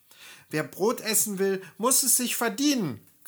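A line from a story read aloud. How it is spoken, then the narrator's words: Spiteful sisters shrieking. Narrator (German): kreischten die bösen Schwester und lachten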